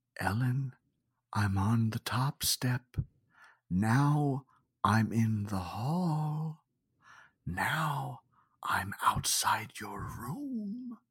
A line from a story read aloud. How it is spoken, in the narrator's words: the voice whispered